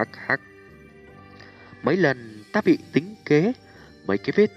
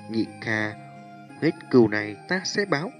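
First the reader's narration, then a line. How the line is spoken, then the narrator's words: Soft, with deep hatred. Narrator (Vietnamese): Tiêu Viêm trong thanh âm nhẹ nhàng ẩn chứa cửu hận vô tận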